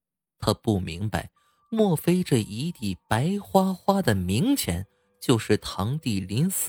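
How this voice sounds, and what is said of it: Usual voice. Nothing is said of it.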